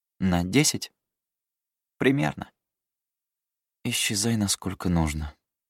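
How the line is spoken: Gloomy, grim. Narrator (Russian): мрачно произнесла Эддис

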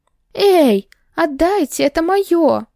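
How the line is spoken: Indignant squeak. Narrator (Russian): запищала возмущенно, когда он внезапно выхватил у меня из рук оставшиеся фисташки, а затем и морковный сок

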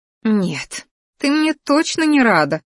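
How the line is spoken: Snorting. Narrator (Russian): фыркнула Дракайна

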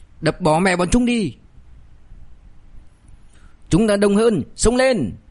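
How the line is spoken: Hot-blooded shout. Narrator (Vietnamese): Phía dưới cũng là một đám không biết sợ, còn đang nóng máu, có tên hét

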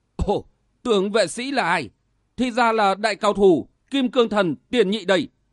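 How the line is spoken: Bursting into loud laughter. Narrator (Vietnamese): Đại lực vương nhìn sang, chợt phá lên cười to nói

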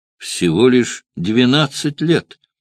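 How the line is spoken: Exclamation. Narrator (Russian): воскликнул Кателина

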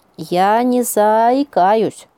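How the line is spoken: Sudden sing-song. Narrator (Russian): вдруг выдал Хлюпик нараспев

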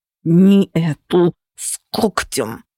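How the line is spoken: Hissed in ear. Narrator (Russian): прошипел голос на ухо

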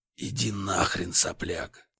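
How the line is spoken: Hoarse exasperated interruption. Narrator (Russian): Устав терпеть, хрипло прервал я его

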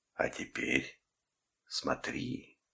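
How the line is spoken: Whisper. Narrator (Russian): прошептал я

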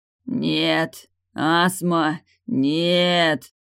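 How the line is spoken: Growling. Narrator (Russian): зарычал Далиль

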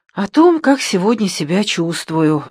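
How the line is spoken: Sighing. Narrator (Russian): вздохнула я

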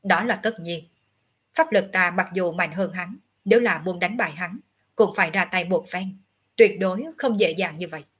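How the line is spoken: Cold, arrogant. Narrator (Vietnamese): Ngọc Hư Tử tầm cao khí ngạo, lạnh lùng nói tiếp

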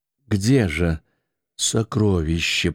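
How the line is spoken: Whisper. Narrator (Russian): прошептала Клеопатра

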